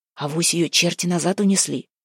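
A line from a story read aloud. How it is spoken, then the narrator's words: Whisper. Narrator (Russian): прошептал он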